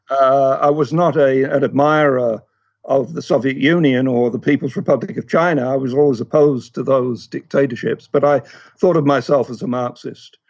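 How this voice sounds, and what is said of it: English accent. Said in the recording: “as you can tell from my voice, I'm not from around here... I grew up in England, although I'm of Scottish extraction”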